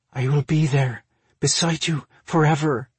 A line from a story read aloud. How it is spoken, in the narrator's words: she breathed